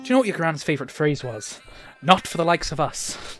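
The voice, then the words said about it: Put-on Irish accent. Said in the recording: “try and do an awful Irish accent ... That slipped into American at the end ... That's not bad ... so I can stay in the accent”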